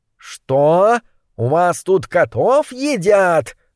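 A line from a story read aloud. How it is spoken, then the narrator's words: Howl. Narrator (Russian): взвыл Моррис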